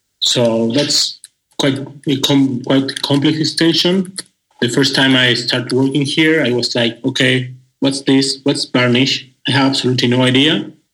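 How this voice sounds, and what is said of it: Argentinian-accented English. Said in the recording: “you have that nice, sexy Argentinian accent ... Your voice sounds like it's doing the tango right now.”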